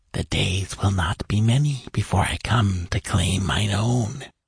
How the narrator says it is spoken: whispered the horror

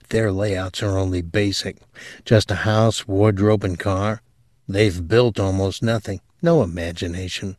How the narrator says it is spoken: he lowered his voice

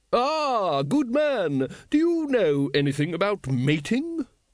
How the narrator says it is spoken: it boomed

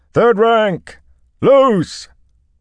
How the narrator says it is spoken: Mandevun shouted

